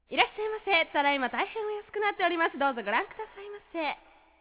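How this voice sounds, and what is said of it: Imitates a shop clerk's voice. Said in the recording (Japanese): “モノマネいきます。ショップ店員のモノマネ。”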